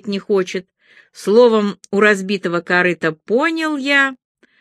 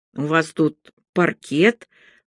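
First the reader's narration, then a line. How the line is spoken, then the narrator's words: Mumbled, entranced. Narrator (Russian): промямлил, завороженно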